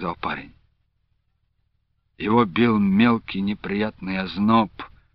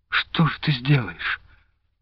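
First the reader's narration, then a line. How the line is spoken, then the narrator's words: Barely audible question. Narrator (Russian): спросила она так тихо, что парень понял эти слова скорее по движению губ, чем их расслышал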